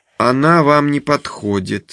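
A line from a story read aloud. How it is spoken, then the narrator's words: Calm remark. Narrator (Russian): спокойно замечает психиатр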